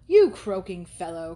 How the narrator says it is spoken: cried Thorpe

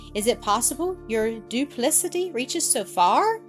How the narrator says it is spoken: cried Miss Kimble

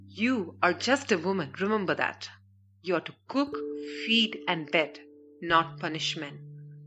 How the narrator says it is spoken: Parchin had growled

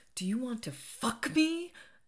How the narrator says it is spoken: screamed

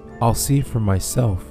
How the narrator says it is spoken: she said

